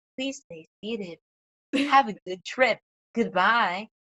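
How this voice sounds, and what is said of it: Imitated flight attendant droid voice. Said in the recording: “the flight attendant droid ... That's my best imitation.”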